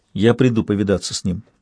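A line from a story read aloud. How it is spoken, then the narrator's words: Quiet. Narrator (Russian): тихо сказала Кетрикан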